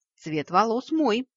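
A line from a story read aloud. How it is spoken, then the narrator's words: Snorted. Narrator (Russian): хмыкнул вампир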